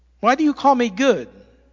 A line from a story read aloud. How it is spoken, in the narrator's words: Jesus asked him